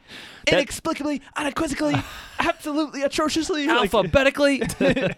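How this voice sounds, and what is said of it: Imitates another person's voice. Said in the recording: “his Stephen A. Smith that he can do ... Stephen B. Smith ... He just goes on about grammar and stuff”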